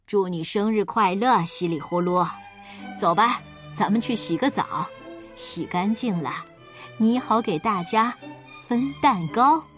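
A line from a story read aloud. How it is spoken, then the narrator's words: Father, laughing. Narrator (Chinese): 爸爸笑着对他说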